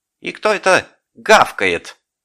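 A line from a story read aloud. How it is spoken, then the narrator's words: Shouted. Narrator (Russian): крикнул Горбун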